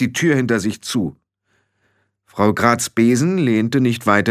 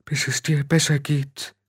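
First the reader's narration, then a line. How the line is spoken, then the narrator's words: Weak. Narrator (German): sagte Frau Grad schwach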